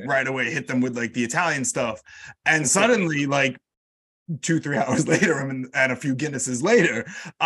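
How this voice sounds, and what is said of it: American New York accent. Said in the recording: “immediately someone in London will hear my accent and say like, oh, you're from America. And I'm from New York.”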